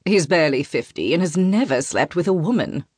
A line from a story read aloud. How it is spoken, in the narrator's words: Raphael snorts